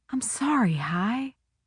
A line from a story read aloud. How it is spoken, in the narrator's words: I whispered